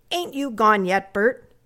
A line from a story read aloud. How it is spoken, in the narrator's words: said sharply